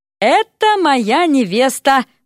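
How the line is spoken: Exaggeratedly cheerful exclamation. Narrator (Russian): преувеличенно весело воскликнул Эрик

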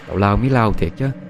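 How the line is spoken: Dejected laughing sigh. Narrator (Vietnamese): Trúc cũng cười thở dài chán nản

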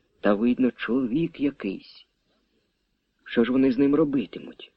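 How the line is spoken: Whispered questioning. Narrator (Ukrainian): допитувався пошепки

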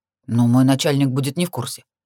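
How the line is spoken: Grumbling. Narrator (Russian): проворчал он

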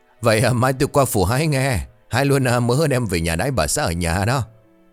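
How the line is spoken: Laughing loudly. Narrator (Vietnamese): Chú Sáu nghe vậy thì cười lớn

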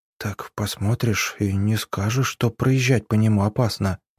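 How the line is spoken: Whisper. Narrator (Russian): прошептала Арина

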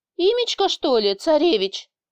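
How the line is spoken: Peaceable question, boss. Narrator (Russian): спросил босс, но уже миролюбивым тоном

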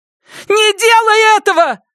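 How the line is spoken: Yell. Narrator (Russian): заорала Кэт

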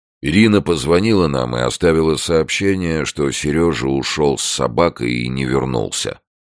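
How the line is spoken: Unhappy voice. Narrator (Russian): несчастным голосом продолжал Леонид Андреевич

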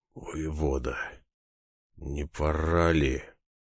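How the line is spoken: Hoarse with excitement. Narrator (Russian): Голос Владимира Андреевича даже хрипл от волнения

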